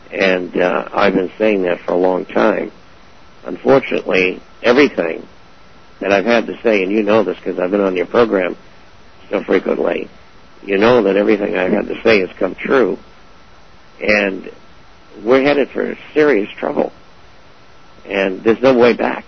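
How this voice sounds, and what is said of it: Hoarse, strained voice. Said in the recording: “I'm losing my voice today because this is program number 4.”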